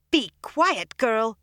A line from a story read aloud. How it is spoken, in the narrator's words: Varen shouted